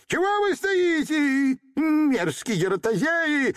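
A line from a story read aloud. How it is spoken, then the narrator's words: Angry dwarf shouting. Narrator (Russian): закричал карлик от гнева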